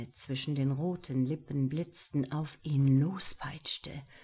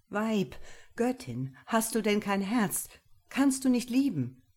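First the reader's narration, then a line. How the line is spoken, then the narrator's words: Called out. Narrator (German): ruft der Deutsche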